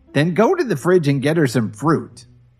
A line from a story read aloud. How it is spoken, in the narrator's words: Dorothy barked at Kevin